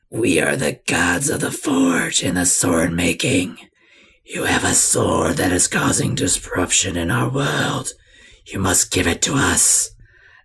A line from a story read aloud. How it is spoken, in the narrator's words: you hear a deep, raspy voice say